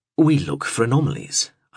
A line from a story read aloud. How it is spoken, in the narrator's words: explained firmly